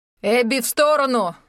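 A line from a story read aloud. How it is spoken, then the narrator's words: Shouted from behind. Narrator (Russian): закричали сзади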